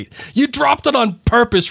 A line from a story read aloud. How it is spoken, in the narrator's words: roared Mr